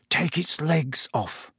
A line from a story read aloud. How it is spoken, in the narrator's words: Ron was muttering to himself